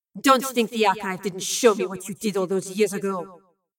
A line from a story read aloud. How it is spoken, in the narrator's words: Lorelei had hissed